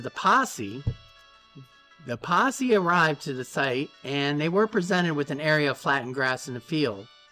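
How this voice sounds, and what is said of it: Put-on southern 1940s accent. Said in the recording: “all of a sudden have a southern accent? ... He has a 1940s accent.”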